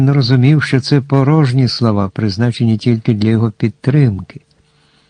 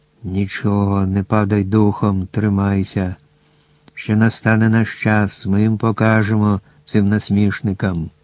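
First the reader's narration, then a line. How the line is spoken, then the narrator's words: Owl whispering in ear. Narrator (Ukrainian): пугач шепотів йому на вухо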